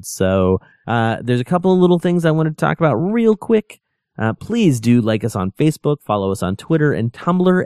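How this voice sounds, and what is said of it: Froggy, hoarse voice. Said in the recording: “You can probably hear my voice is getting a little froggy here ... I kind of feel like I'm getting sick”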